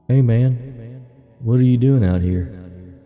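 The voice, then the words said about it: Slightly southern accent. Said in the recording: “he spoke in a slightly southern accent.”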